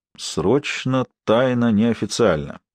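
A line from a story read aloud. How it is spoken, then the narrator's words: Grumbled. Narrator (Russian): проворчал Сварог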